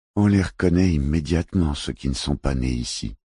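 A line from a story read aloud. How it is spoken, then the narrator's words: Sighed. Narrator (French): soupira Listwirtling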